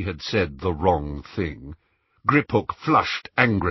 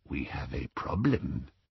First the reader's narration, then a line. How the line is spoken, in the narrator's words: said the goblin softly